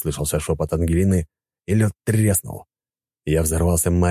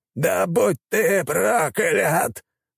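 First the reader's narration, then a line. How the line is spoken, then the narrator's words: Shouted, mage. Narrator (Russian): выкрикнул маг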